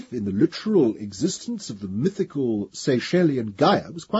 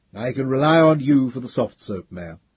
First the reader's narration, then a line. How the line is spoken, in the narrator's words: said Caudel dryly